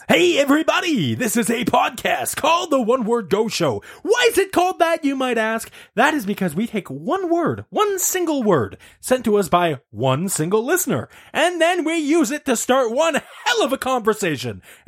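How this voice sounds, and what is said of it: Radio announcer voice. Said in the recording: “I don't know why I switched to this radio announcer voice. ... That's your podcast voice.”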